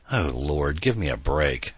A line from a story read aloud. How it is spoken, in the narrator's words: Adam moaned hopelessly